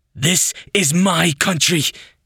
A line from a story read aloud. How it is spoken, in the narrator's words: he shouts at Randy